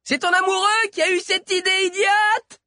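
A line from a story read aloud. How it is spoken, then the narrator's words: Muffled yelling. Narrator (French): hurlait Sabi tout en avalant à chaque mot une mèche de ses longs cheveux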